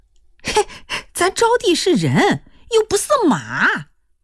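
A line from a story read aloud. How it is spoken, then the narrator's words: Mother laughing. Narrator (Chinese): 他娘就笑了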